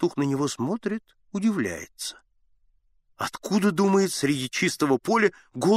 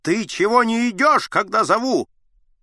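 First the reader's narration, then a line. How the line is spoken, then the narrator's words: Angry shout. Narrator (Russian): Аггей на него закричал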